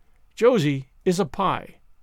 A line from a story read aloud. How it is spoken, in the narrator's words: said Marilla sharply